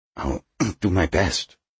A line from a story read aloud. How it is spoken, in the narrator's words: Smithback mumbled